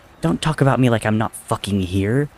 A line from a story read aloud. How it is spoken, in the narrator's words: Tommy spat angrily